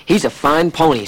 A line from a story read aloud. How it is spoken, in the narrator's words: said Billy's father